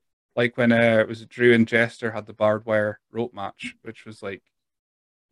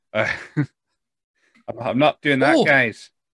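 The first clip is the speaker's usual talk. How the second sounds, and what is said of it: Imitates another person's weird accent. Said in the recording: “With his weird accent.”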